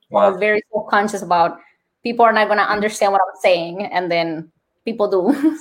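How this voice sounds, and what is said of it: Colombian accent. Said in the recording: “My Colombian accent”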